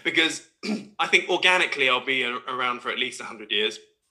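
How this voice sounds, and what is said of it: Croaky, hoarse throat. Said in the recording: “I've got a frog in my throat now”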